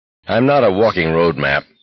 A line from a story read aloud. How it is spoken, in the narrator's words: Garrity said irritably